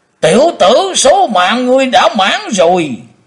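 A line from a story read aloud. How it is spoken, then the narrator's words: Thunderous roar. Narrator (Vietnamese): Tử Diện Côn Luân gầm lên tạo sấm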